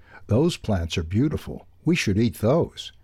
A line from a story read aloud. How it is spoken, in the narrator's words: Ralph exclaimed